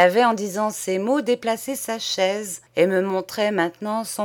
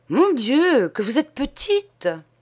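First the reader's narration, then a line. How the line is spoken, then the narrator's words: Astonished exclaiming. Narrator (French): elle s'écria d'une voix étonnée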